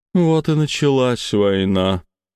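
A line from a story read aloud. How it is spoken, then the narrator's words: Heavy sigh. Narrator (Russian): тяжело вздохнула сиреневая рожица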